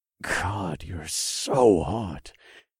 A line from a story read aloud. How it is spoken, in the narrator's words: I muttered